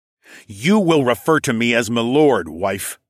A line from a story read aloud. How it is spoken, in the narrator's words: I snarled